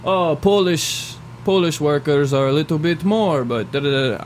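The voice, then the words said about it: Bad put-on Polish accent. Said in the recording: “That's probably a terrible, terrible Polish accent.”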